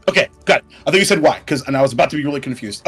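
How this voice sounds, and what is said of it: Character voice with a put-on accent. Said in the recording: “The GM's figuring out the accent.”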